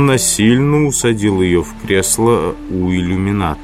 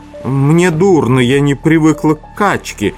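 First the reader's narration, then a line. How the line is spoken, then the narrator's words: Exclaimed. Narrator (Russian): воскликнула Брике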